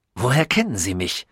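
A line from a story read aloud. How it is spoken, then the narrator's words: Rude grumble. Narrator (German): brummte er unhöflich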